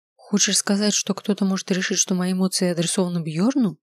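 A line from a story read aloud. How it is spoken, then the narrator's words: Plain. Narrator (Russian): спросила я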